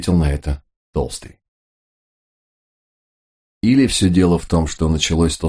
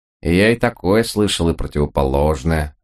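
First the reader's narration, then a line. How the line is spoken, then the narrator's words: Plain. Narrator (Russian): ответил Траган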